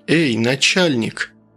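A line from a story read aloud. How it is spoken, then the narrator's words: Surprisingly calm while drowning. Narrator (Russian): На удивление спокойно для тонущего человека обратился он к Рощину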